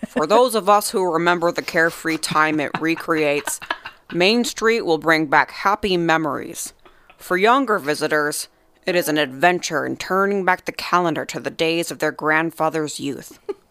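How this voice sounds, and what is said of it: Walt Disney impression. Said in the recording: “I should try a Walt Disney voice.”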